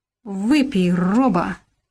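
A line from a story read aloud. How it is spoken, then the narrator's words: Slurred drunken drawl. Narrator (Russian): нетвердым языком протянул Валька черт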